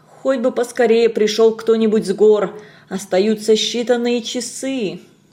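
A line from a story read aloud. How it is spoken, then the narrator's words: Muttering. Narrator (Russian): бормоча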